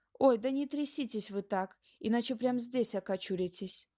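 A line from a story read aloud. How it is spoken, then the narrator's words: Pleading. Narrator (Russian): взмолилась дама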